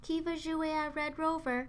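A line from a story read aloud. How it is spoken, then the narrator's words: Plain question. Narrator (French): demanda Jada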